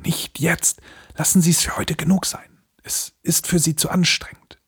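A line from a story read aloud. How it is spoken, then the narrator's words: Soft whisper. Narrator (German): flüsterte ich ihm leise zu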